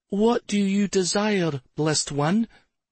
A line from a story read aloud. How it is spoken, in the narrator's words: A young girl of about 13, wringing her hands nervously, and asked